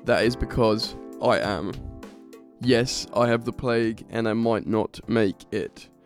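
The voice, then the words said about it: Sick-sounding voice. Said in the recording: “Sorry if I sound ill.”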